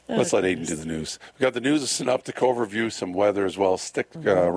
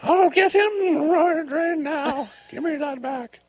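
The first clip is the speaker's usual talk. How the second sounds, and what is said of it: Poor imitation of elderly woman. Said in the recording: “my horrible impression of her ... 90-year-old Betty”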